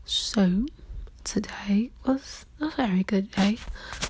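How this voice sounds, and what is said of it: Put-on British accent. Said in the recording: “I have a British accent all of a sudden ... my British accent is coming out ... let me stop talking in a British accent”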